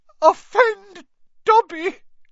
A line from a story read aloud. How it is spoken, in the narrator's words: choked the elf